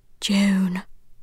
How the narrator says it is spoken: she called in a strange, whispery voice

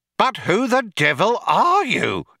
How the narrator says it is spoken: exclaimed an outraged Fook

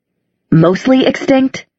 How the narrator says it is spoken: he said, his voice trembling with rage

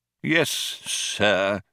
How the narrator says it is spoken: said the old man coldly

